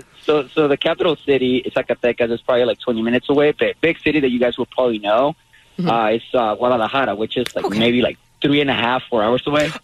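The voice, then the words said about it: Hoarse, nearly lost voice. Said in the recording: “as you can tell, my voice is kind of gone”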